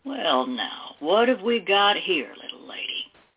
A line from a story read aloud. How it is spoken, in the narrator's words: Wallace asked with an oily chuckle